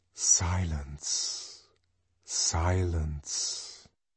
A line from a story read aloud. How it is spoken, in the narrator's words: whispered a loudspeaker